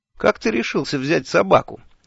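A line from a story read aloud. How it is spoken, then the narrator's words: Cheerful question. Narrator (Russian): весело спросил я Шурфа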